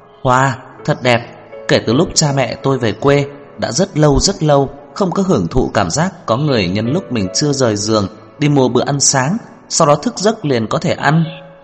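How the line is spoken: Smiling, blurted out. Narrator (Vietnamese): Nhã Tuệ mỉm cười đi tới, thấy bữa ăn sáng trước mặt mới bật nói

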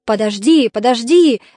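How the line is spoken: Pirate shouting. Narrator (Russian): закричал пират

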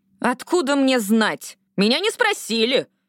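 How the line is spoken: Shouting. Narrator (Russian): крикнула

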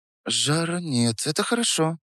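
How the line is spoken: Muttering. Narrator (Russian): пробормотала она

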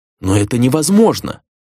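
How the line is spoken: Exclaiming. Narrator (Russian): воскликнула Дона

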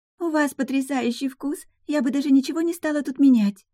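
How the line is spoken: Ingratiating babble. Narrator (Russian): пролепетала кандидатка в жены, чтобы заработать себе этим пару дополнительных очков

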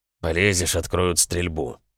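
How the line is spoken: Through gritted teeth. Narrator (Russian): процедил сквозь зубы Костя

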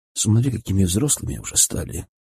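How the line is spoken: Quiet tender remark. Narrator (Russian): тихо сказал я жене

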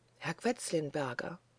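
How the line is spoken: Boy whispering softly. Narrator (German): flüsterte da der Knabe leise

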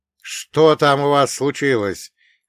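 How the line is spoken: Shout. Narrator (Russian): крикнул я

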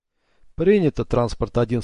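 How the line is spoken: Calm speech. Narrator (Russian): спокойно сказал Сата

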